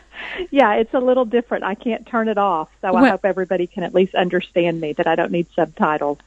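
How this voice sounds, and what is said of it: Sweet-sounding Texas drawl. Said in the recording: “your Texas accent and how we love hearing that ... here's my take on a Texas accent, is that you could say the worst things and it would still be sweet sounding ... that Texas drawl”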